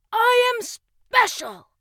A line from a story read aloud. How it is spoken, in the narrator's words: Russ shouted out